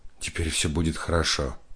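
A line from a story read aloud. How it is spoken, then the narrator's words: Whispered. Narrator (Russian): шепнул Алексей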